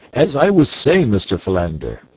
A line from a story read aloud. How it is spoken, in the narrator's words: screamed Professor Porter